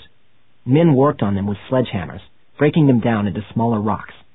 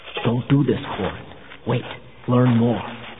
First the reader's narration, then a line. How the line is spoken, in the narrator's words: Erlor saying in a low voice